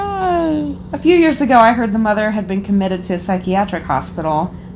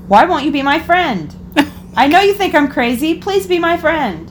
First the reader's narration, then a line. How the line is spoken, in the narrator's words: The mother start yelling